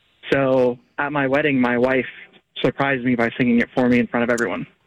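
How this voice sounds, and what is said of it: Choked-up, emotional voice. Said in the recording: “you were a puddle ... You probably hear it in my voice now.”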